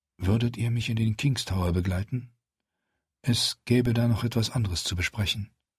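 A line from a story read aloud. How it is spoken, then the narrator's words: Quiet soft voice. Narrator (German): sagte Melisandre leise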